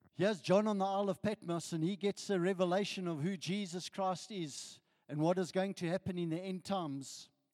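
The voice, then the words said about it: Croaky, hoarse voice. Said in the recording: “Excuse my voice. ... I'm a little bit croaky this morning”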